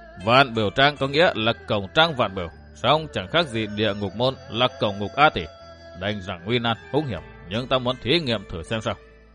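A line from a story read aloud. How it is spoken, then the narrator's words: Smiling mysteriously. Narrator (Vietnamese): Bá Thiện cư sĩ mỉm cười bí mật nói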